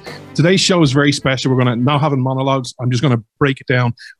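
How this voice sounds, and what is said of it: Speaks with a noticeable accent. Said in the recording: “the show where you come for the accent”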